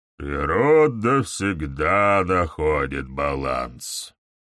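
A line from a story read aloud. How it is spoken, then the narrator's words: Singsong. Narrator (Russian): нараспев произнес Изыск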